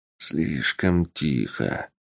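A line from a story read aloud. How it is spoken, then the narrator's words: Mutter. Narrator (Russian): пробормотал Беловолосый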